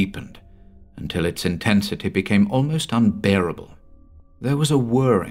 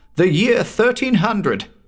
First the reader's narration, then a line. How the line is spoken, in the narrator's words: cried the elated Morrow